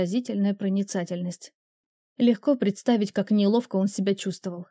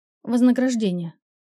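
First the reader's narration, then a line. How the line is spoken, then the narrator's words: Dry. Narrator (Russian): сухо произнесла я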